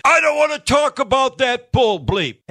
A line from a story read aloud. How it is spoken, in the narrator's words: All of a sudden La Russa's screaming